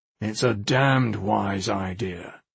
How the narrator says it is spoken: he growled

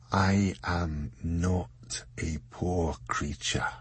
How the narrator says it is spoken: And a weak voice said, quietly, but firmly

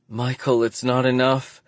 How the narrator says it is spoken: she cries out, frustrated

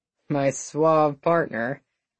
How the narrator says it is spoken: Wills muttered

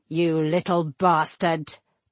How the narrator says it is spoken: Tannic growled

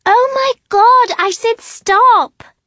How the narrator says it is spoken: Emmeline screams

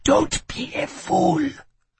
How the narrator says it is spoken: she whispered

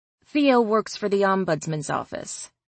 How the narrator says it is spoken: I said

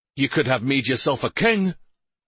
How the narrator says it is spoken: one of the younger men blurted out

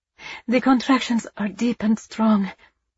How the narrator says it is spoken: she panted

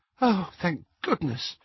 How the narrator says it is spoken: said Hermione weakly

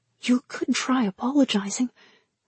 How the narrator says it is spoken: Nyang whispered

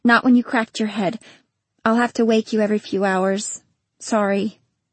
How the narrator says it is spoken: she said

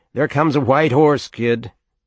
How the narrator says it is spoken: everybody teased you about your hair and yelled

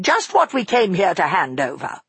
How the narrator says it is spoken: said crossly

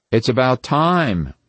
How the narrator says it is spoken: Ronnie said impatiently

